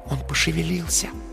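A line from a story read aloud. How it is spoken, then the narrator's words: Soft whisper in ear. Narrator (Russian): тихо прошептала на ухо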